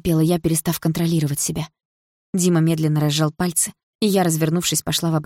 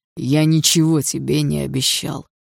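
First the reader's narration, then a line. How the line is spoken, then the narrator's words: Hoarse reply. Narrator (Russian): хрипло ответил Дима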